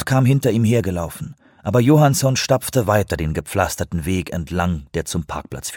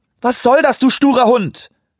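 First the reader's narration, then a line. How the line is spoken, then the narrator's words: Screaming. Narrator (German): schrie sie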